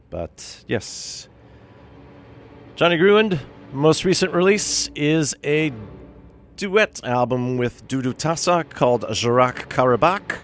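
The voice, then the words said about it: New York accent. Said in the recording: “the New York accent kicks back in here”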